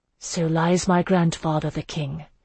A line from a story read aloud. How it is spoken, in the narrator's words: Isandra said softly